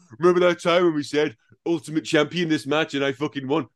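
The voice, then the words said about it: Poor, mocking imitation of another person. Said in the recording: “that was a poor impression. ... I'm much more obnoxious than that. Much more obnoxious”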